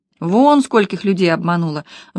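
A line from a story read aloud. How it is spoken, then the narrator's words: Sigh. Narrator (Russian): вздохнула Лена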